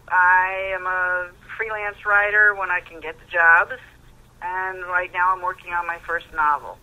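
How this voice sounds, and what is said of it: American accent. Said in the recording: “as you can tell by my accent, I grew up in America”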